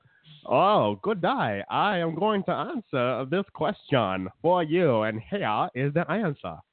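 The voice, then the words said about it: Bad put-on British accent. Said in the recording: “With a British accent, too. ... that accent was a legit hate crime”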